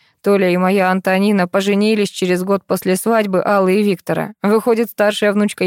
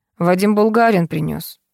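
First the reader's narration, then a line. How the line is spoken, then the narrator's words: Gloomy explanation. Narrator (Russian): мрачно пояснил он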